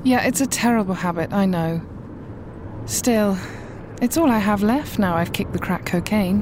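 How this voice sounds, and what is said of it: Upper-class British accent. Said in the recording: “Are you British?... I love your accent.... You sound really, like, upper class.”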